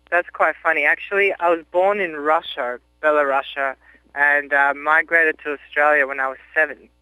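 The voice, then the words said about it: Mixed Russian and Australian accent. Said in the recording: “You have an accent ... a mixture of a bit of Russian and a bit of Australian”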